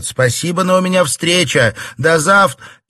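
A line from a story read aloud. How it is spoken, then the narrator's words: Shouted reply, bad mood. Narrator (Russian): Настроение было совсем не то, и она крикнула в ответ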